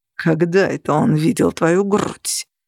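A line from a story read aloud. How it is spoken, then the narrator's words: Hiss. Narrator (Russian): прошипел Грегор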